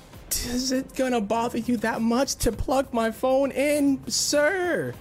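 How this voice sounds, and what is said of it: Raised, loud frustrated voice. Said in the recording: “raising my voice”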